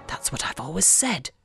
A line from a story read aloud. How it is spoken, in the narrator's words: Dad mutters